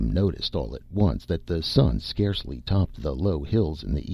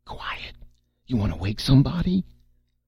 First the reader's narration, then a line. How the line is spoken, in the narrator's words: Red kept to his croaking whisper